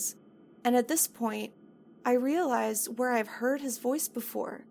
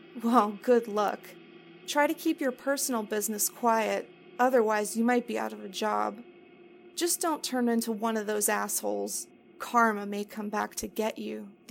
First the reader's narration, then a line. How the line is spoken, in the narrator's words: the old man said, chuckling to himself